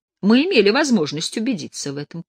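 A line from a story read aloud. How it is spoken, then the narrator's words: Confirming. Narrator (Russian): подтвердил лысый Боров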